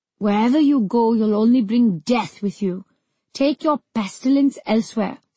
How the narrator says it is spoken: spat Mother Dina

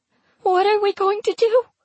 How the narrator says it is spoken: She asks me imploringly, her voice quavering

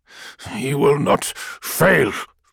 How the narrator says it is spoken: Malachurst spat

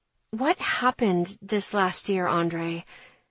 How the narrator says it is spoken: Lowering my voice, I ask

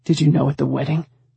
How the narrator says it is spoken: My voice shook

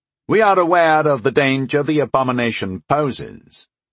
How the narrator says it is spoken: said Lord Letheran dryly

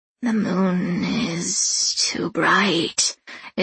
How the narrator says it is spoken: Edimu hisses

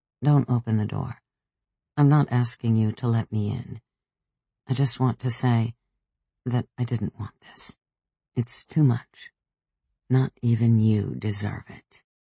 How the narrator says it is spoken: Pietro knocked and said softly, with an unexpected gentleness

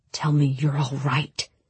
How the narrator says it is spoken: he murmured, his voice raw

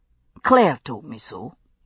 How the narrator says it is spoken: he murmured

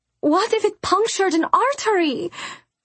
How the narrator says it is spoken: Sinove wailed

